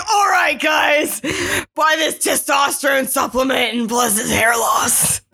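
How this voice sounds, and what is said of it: Bad Alex Jones impression. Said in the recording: “that was a bad Alex Jones impression.”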